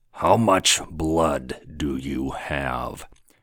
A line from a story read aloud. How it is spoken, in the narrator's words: he said, his voice quite dark